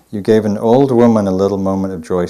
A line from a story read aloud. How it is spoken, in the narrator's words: she said